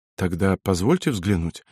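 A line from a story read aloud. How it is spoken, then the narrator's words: Timid request. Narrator (Russian): робко попросил лейтенант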